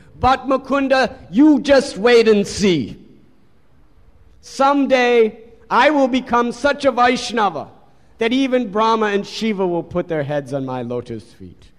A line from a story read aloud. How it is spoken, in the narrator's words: he started speaking very loudly for everyone to hear